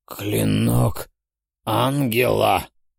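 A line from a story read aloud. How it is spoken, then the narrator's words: Hoarse demonic rasp. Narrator (Russian): прохрипел владыка демонов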